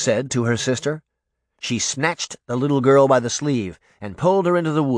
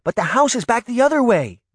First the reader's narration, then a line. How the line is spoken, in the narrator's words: Daphne cried